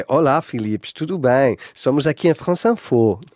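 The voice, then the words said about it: Thick put-on Brazilian accent. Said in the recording (French): “Chico, le Brésilien ... qui parlait avec un accent à couper au couteau”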